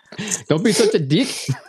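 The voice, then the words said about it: Muddled put-on accent, sounds South African. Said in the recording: “I don't know what accent that is now. ... That sounds like South African or something.”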